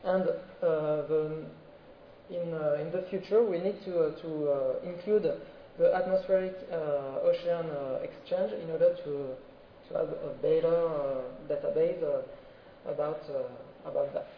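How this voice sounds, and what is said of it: Strong French accent in English. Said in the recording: “sorry for my terrible French accent.”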